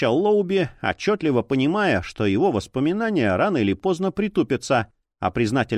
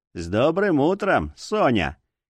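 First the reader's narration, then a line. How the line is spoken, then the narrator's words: Sarcastic, snide. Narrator (Russian): ехидно бросил повар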